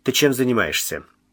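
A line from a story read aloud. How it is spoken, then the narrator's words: Sea serpent asking. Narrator (Russian): спросил морской змей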